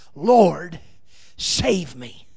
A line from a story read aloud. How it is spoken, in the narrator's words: When Peter began to sink, he cried out